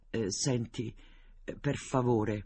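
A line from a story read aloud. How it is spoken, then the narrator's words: Stammered. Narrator (Italian): balbettò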